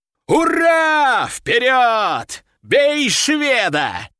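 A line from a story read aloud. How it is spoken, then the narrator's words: Shouting. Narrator (Russian): закричал Нефедов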